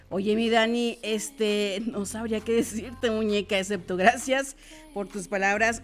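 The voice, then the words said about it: Radio announcer voice. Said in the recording (Spanish): “Tienes muchos admiradores con una voz de locutor. ... pasa la receta para ver si me mandan un saludo con esa voz ... yo traigo esta voz desde que me acuerdo”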